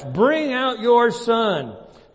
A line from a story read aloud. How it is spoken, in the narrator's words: they yelled to Joash